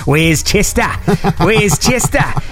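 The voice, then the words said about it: Put-on accent. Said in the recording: “I don't know why I do this accent”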